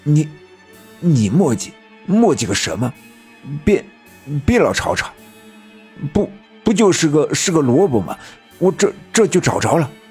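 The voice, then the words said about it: Quiet, slurred drunken speech. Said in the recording (Chinese): “小声说道 ... 那人说话舌头僵硬，看样子果真是没少喝酒”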